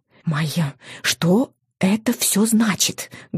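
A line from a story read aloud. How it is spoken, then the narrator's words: Heated whisper. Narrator (Russian): горячо зашептала мама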